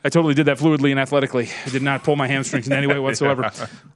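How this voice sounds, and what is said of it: Out of breath speaking. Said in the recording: “I'm out of breath now.”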